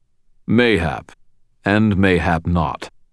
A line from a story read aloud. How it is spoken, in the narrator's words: the Gruff rumbled